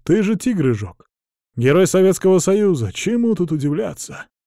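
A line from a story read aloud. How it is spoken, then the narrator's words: Unexpectedly calm reply. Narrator (Russian): Неожиданно спокойно откликается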